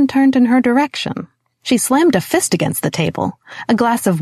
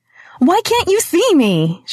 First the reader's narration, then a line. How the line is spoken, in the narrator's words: She shouted, her eyes filling with tears